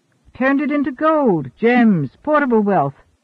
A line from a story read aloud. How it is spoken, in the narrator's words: Cadog corrected merrily